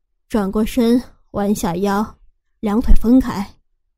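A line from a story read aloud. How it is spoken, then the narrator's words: Admiring husband. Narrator (Chinese): 老公赞叹着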